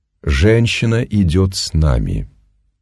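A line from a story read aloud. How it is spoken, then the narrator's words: Slow. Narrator (Russian): медленно начал он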